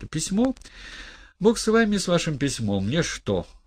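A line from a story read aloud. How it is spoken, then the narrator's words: Exclaiming. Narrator (Russian): воскликнул гость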